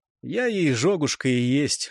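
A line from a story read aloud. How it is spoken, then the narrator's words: Grumble. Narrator (Russian): буркнул Светил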